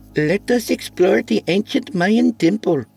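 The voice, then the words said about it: Bad put-on Indian accent. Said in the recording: “His attempt at an Indian accent was very bad.”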